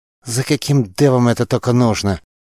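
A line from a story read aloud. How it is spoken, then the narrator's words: Hissed through teeth. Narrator (Russian): сквозь зубы прошипел Тарш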